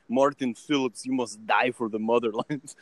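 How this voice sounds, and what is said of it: Bad put-on Russian accent. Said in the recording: “my shitty Russian accent”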